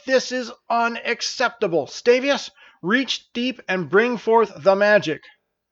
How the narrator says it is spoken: shouted Terra

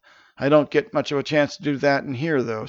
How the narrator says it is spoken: sighed Safe

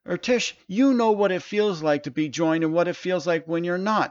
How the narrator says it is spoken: Stavin shouted

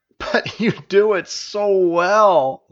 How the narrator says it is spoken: laughed Stavius

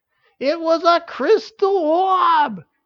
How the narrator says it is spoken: yelled Uriel with frustration

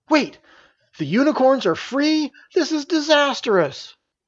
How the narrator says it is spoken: Mills exclaimed

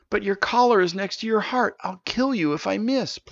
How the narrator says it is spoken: pleaded Stavius

